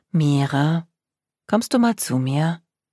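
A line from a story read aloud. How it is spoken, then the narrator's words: Gentle, loving mother's voice. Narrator (German): Die Stimme ihrer Mutter war sanft und liebevoll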